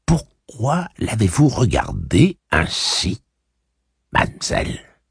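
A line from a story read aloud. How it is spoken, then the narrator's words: Furious whisper. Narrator (French): chuchota Cordelia, furieuse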